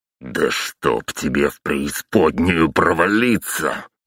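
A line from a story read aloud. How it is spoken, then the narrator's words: Growl. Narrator (Russian): прорычал я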